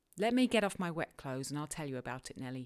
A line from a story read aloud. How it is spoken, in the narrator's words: he replied